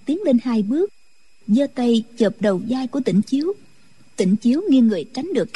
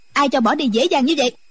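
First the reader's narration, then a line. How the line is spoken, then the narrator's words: Woman shouting. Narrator (Vietnamese): Quan y mỹ nữ quát lên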